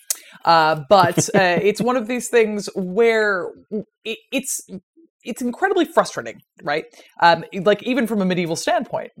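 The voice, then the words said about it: Irish accent. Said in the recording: “as you can tell from my accent, I am an Irish citizen, but republic thereof”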